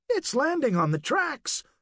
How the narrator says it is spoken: Daryl said excitedly

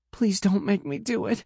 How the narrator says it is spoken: cries

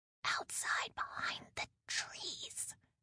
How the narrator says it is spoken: Morgan whispered

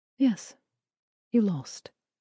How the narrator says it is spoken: Michelle said calmly

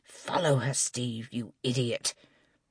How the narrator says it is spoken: Angela muttering

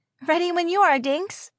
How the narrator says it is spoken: Magda said cheerfully

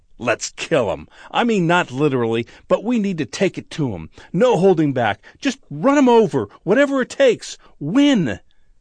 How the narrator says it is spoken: one of the young new players, in a moment of passion, blurts out

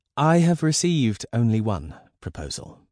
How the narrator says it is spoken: said Elizabeth calmly, knowing her even tone further infuriated her mother

